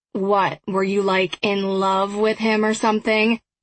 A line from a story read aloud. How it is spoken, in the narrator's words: He asked sarcastically